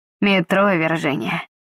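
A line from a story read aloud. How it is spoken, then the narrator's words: Sighing. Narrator (Russian): вздохнул детектив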